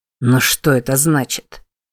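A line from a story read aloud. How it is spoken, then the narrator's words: Mumbling. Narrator (Russian): пробормотал он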